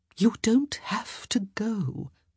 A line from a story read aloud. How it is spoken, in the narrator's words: Lady Bridgerton said softly